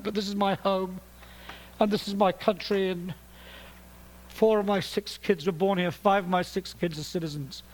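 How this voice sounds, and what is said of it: British accent. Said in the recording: “I'm speaking to you in a British accent”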